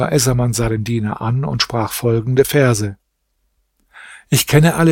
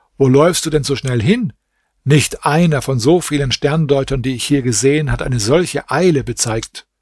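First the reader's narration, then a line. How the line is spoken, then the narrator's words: Called out. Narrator (German): Der Diener rief ihm zu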